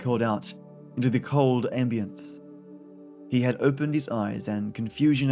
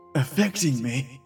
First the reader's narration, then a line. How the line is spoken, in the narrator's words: rasped